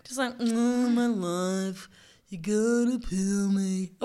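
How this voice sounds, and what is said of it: Mopey, gloomy Eeyore-like character voice. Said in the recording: “I think an onion would be kind of like Eeyore from Winnie the Pooh ... mopey ... that's a pretty good onion voice, right?”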